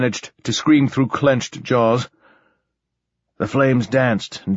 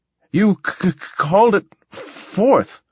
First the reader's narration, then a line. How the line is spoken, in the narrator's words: gasped the little man